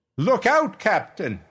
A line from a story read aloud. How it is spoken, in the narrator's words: I shouted